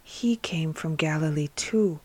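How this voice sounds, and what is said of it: Very low, murmured voice. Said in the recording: “in a very low voice, as if speaking to himself”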